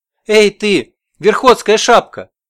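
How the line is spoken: Shouted. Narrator (Russian): И один из них крикнул

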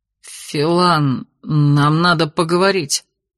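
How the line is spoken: Forced out, clumsy tongue. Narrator (Russian): с трудом выдавил он, удивляясь неповоротливости своего языка

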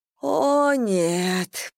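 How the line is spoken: Moaning. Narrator (Russian): простонала Анна

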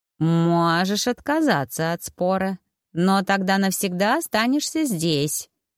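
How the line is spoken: Cat's purring voice. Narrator (Russian): мурлыкнул кот

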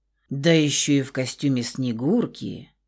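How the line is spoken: Low male voice. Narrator (Russian): Проговорил низким голосом оголенный по пояс мужчина

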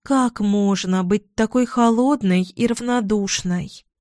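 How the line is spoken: Sighing. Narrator (Russian): Я вздохнула

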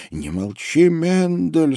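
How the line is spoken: Whispering. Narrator (Russian): сказала она шепотом

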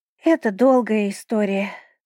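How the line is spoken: Sighing turtle. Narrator (Russian): вздохнула черепаха

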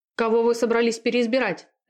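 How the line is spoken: Barking, sharp shout. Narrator (Russian): рявкнул Артур

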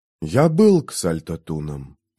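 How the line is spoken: Whisper. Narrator (Russian): прошептал он

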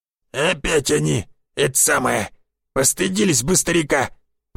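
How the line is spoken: Grumbling old man. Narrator (Russian): проворчал Никифорыч

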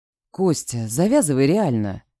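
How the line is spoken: Quiet. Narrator (Russian): Негромко заговорил помощник Дымова

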